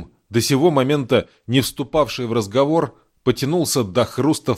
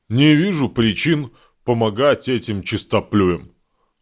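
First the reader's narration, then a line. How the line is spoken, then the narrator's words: Deep bass voice. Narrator (Russian): пробасил он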